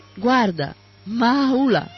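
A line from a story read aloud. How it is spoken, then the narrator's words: Girl's startled exclamation. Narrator (Italian): la ragazza con occhi sbarrati, esclamando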